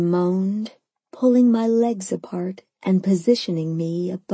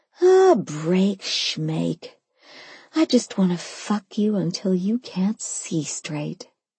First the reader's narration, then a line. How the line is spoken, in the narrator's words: I purred